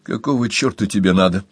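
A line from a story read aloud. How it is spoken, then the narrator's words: Irritated question. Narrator (Russian): раздраженно спросил Томас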